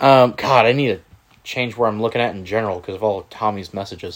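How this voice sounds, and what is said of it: Usual voice. Nothing is said of it.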